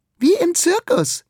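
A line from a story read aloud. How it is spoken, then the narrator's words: Girl calling out. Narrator (German): ruft ein Mädchen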